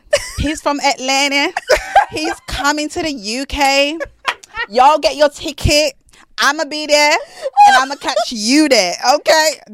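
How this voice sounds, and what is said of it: Put-on American accent. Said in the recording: “is this your American accent? ... That's like a South African English.”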